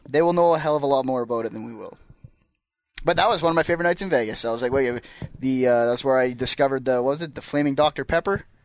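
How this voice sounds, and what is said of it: Scottish accent. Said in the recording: “you got a good Scottish accent”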